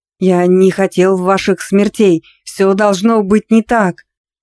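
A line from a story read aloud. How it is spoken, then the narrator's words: Terrified shout. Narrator (Russian): Выкрикнул парализованный ужасом и магией виновник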